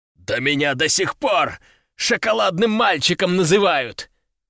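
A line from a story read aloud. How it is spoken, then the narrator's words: Roaring. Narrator (Russian): взревел капитан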